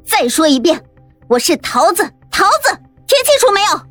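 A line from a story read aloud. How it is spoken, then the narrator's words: Furious roar. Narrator (Chinese): 桃子突然之间发飙了，对着猫老师大声咆哮道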